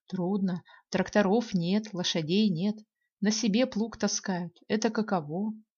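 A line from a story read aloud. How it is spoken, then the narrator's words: Father sighing. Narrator (Russian): Вздохнет отец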